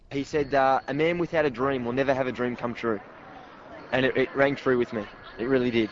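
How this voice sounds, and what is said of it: Australian accent. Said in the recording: “until he opens his mouth and unleashes that accent”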